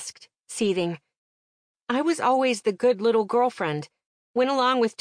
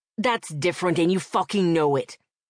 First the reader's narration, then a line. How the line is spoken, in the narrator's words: he growled